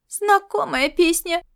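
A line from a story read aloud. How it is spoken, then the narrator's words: Skeptical snort. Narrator (Russian): Скептически фыркнув, Сорнойка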